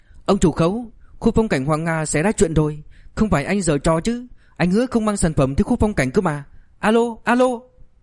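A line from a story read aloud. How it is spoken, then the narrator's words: Shouting over phone. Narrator (Vietnamese): tiếng người nhận máy hét lên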